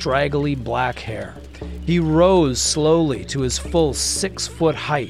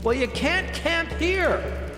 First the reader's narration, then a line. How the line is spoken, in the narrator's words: Jenny shouted back